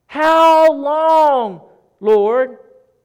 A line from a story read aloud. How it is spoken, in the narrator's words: A man that was in a deep relationship with God cries out to him